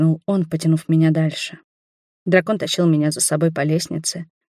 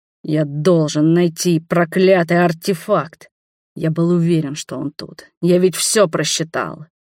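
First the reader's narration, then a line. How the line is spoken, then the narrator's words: Through clenched teeth. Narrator (Russian): процедил сквозь зубы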